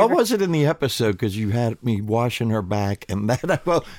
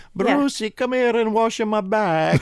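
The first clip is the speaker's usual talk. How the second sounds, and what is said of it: Imitates grandmother's voice. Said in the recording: “do an imitation of your grandmother”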